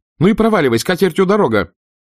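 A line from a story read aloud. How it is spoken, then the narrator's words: Urge to shout. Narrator (Russian): Скарлетт так и хотелось крикнуть ему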